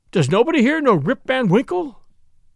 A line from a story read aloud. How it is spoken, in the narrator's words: he cried out in despair